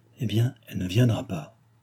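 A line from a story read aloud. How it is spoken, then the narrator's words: Low voice. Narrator (French): La maréchale à voix basse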